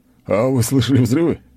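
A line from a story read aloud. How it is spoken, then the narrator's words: Snort. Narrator (Russian): хмыкнул он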